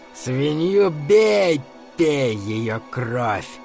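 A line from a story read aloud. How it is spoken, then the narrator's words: Hoarse, unrecognizable voice. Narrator (Russian): сказал мистер Бидерман хриплым, совсем неузнаваемым голосом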